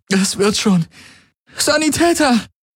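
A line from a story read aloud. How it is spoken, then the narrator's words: Calling out. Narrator (German): rief sie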